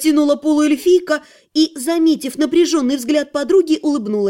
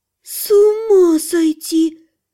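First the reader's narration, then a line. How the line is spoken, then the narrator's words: Breathless. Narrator (Russian): выдохнула Лана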